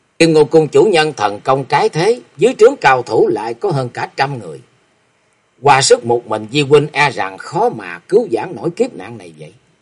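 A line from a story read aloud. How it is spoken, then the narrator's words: Cold. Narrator (Vietnamese): Kim Tuyết Ngân lạnh lùng nói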